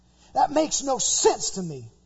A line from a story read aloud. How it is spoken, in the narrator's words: he snapped